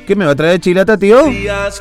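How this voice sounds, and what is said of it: Put-on Tucumán Argentine accent. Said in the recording (Spanish): “yo le hablo igual con la tonada tucumana”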